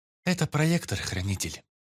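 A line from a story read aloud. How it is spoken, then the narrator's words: Calm female reply. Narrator (Russian): спокойно ответила Эрис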